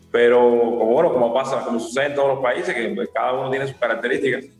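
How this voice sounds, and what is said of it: Cuban Spanish accent. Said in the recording (Spanish): “Obviamente por tu acento, ya lo mencionaste, Cuba.”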